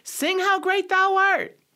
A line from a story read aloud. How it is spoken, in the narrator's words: somebody shouted